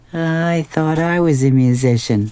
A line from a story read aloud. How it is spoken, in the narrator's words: a little sadly, like